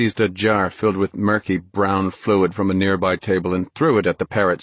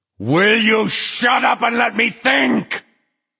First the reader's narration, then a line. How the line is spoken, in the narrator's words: Flagg howled